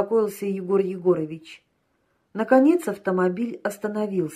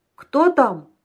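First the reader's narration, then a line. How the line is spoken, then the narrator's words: Shouting. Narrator (Russian): закричал Патмосов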